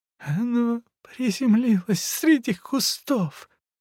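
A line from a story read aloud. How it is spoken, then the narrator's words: Wheezing sob. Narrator (Russian): с присвистом всхлипывал он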